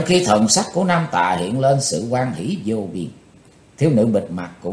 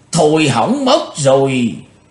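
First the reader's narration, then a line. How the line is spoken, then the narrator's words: Panicked old man's cry. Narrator (Vietnamese): Bắt độc lão ma hoảng hốt kêu lên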